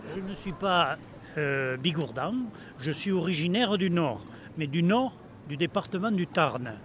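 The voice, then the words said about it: Southern French regional accent. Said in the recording (French): “L'accent, c'est pas celui du Nord de la France.”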